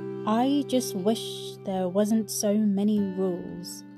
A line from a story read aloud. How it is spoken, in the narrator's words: grumbled